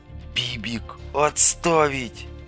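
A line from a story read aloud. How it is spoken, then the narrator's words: Hiss. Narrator (Russian): прошипел Дорогин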